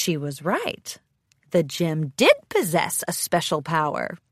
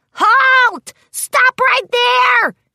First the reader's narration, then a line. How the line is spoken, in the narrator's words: yelled